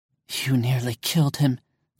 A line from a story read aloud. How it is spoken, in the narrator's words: Allison whispered